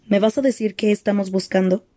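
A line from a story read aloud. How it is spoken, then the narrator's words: Plain. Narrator (Spanish): preguntó ella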